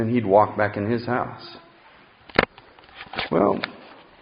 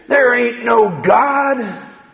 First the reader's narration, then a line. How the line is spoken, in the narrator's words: he'd always yell back to her and say